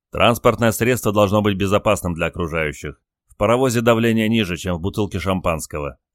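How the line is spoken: Plain. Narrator (Russian): ответил Петр

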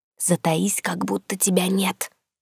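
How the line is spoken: Hissed inner voice. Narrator (Russian): Прошипела я мысленно

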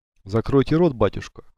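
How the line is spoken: Cold command. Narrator (Russian): холодно велел он

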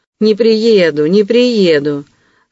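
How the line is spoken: Smug laughter. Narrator (Russian): самодовольно смеялся Вельчининов

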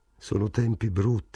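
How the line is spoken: Murmured. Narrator (Italian): mormorò Morris

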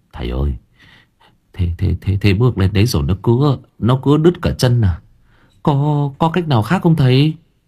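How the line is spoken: Trembling voice. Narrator (Vietnamese): run run

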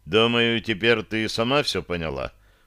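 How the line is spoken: Dry. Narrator (Russian): сухо произнес я

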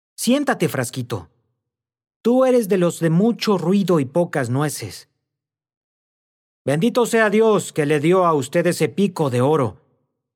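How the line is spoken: Admiring exclamation. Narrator (Spanish): exclamó Cristóbal, inflamado de admiración

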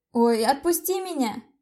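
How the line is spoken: Shouting, struggling. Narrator (Russian): закричал мотоциклист

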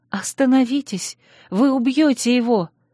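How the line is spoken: Frightened cry. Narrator (Russian): испуганно вскрикнула

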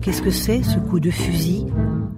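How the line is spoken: Plain. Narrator (French): dit Malabar

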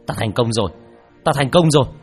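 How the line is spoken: Excited shout. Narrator (Vietnamese): Hắn hét lên hưng phấn

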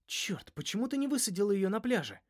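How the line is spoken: Hiss. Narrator (Russian): прошипел я Финни

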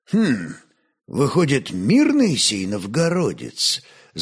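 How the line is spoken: Thoughtful. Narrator (Russian): задумчиво молвил Аскольд

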